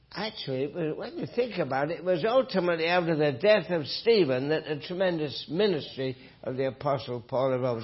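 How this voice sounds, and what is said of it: Northern English accent. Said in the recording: “my accent, that I grew up in England, north of England. Someone said I preached like Alistair Begg... he just meant my accent”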